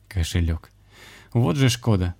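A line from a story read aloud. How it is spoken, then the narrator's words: Smirking grunt. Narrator (Russian): хмыкнул шаман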